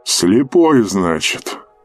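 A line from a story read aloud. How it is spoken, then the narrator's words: Grunt. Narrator (Russian): Капитан хмыкнул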